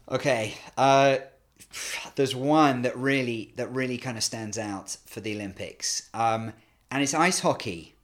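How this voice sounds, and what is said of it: British accent. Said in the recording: “despite my British accent”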